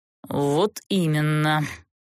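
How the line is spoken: Bitter, scornful snort. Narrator (Russian): желчно фыркнул герцог

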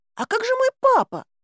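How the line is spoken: Squeaky owlet voice. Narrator (Russian): пискнула совка

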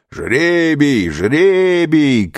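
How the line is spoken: Robbers shouting together. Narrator (Russian): кричали разбойники

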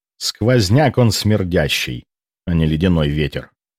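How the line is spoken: Grumbling. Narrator (Russian): проворчал я

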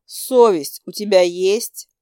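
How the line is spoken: Grumbling. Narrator (Russian): ворчала я

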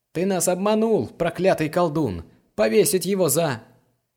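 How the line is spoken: Crowd of guards shouting. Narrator (Russian): толпа охранников, которые кричали

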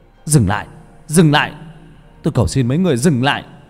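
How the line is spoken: Desperate shout. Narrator (Vietnamese): Tôi hét lên một tiếng

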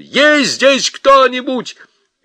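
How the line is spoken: Shout. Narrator (Russian): закричал

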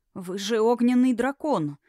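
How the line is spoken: Faltering babble. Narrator (Russian): пролепетал лекарь

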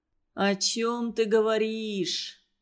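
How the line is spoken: Astonished drawl. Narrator (Russian): изумленно протянул он

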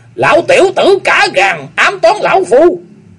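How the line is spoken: Old man roaring. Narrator (Vietnamese): lão gầm lên

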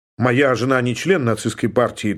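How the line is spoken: Hurried statement. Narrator (Russian): торопливо сообщил Мартинс

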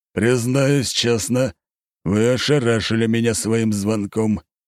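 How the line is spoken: Steely tone. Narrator (Russian): стальным тоном проговорил глава рода Быковых

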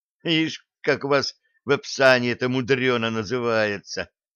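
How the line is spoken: Young man scoffing. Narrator (Russian): хмыкнул юноша

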